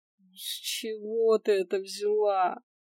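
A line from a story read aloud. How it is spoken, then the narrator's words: Resigned drawl. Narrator (Russian): Обреченно протянула я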